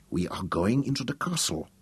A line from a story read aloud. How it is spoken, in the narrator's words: Sukina said quietly